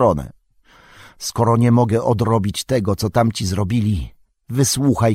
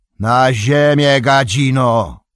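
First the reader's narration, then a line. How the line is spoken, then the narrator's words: Sudden booming shout. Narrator (Polish): krzyknął nagle gromkim głosem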